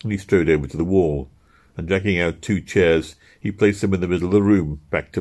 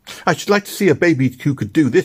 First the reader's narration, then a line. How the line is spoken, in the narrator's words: cried, with his face wet with tears